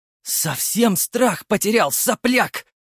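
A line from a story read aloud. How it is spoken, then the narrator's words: Hissed. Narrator (Russian): прошипел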